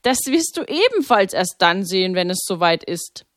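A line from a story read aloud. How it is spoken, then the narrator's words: Laughing. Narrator (German): lachte Pater Maximilian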